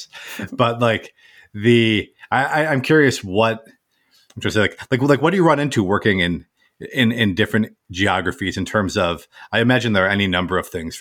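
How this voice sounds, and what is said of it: American accent. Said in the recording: “if my accent doesn't give it away, I'm based in the US”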